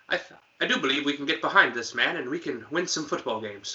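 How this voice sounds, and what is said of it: Slight put-on British accent. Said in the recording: “I gave him a slight British accent”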